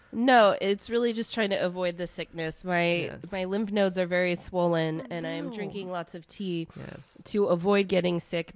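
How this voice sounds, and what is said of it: Raw, slightly hoarse voice. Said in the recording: “my voice is a little raw”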